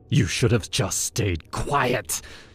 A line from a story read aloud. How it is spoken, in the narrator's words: he hissed